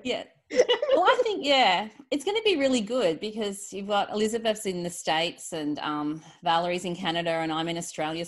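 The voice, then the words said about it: Australian accent. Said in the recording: “the Aussie accent, it's not going anywhere ... my accent's slightly different to Jess”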